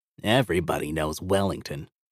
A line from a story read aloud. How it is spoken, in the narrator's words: Hefty commented with a slight snort of disdain